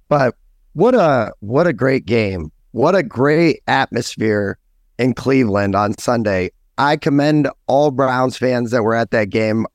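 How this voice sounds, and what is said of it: Strained, worn-out voice. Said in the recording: “My voice is a little shot, a little under the weather”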